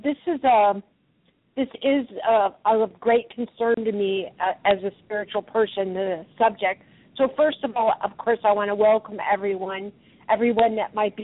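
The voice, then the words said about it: Slightly raspy voice. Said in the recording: “recovering from a cold, so my voice hopefully won't get too raspy ... just a little bit of raspiness”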